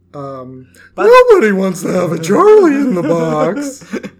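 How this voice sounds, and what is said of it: Imitated Charlie-in-the-Box character voice. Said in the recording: “As you can tell, I love trying to do the voices.”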